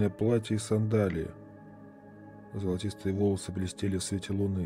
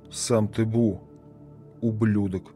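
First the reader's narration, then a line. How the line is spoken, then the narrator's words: Growled. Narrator (Russian): прорычала Бесси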